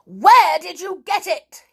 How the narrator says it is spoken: he barked

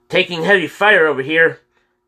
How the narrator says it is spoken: Kyle shouted

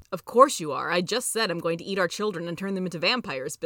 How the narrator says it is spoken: Bill chuckled

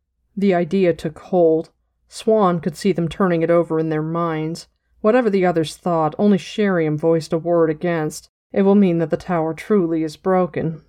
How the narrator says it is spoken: woman said sadly

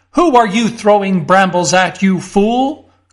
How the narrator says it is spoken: cried a voice

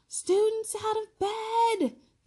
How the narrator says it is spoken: Peeves bellowed

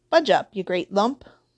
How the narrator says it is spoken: said the stranger

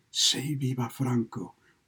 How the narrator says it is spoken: answered and whispered

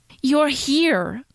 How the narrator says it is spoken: Clint exclaimed gleefully

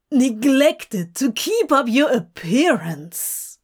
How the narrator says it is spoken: Crowley gasped

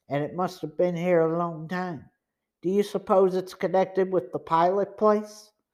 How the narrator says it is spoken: Joe whispered

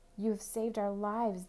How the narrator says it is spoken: they exclaimed

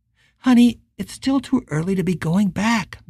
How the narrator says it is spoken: Michelle said, her voice soft and concerned

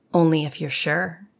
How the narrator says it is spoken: whispered back

